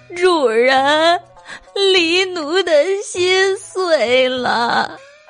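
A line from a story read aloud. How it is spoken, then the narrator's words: Crying. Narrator (Chinese): 黎奴就哭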